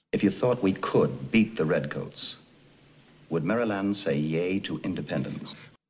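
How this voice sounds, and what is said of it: Strong transatlantic accent. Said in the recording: “William Daniels, the man who has the greatest transatlantic accent that Broadway has ever seen”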